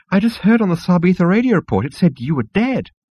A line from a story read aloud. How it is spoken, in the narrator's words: it squealed